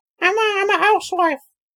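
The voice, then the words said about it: Poor impression of a cartoon housewife. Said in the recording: “do the Lois one... That's the worst impression you've ever done.”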